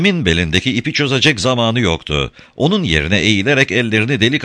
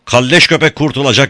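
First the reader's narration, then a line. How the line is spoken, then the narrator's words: Shouted. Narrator (Turkish): diye bağırdı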